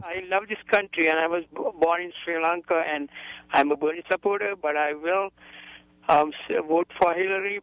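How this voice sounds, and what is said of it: Sri Lankan-accented English. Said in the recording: “I'm a U.S. citizen from Sri Lanka... I wasn't born in this country, and forgive me for my accent if you don't understand me.”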